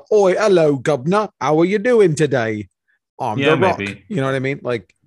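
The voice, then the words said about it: Bad comedy British accent. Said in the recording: “He can probably pull off like a bad British.”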